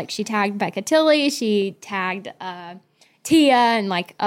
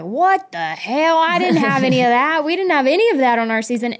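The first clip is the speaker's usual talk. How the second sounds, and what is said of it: Put-on Arkansas accent. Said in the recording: “you do her accent so good ... I have a great Wiener Arkansas accent”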